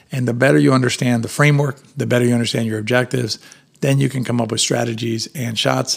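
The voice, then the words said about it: Strained, failing voice. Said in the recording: “my voice is going to leave me in a second”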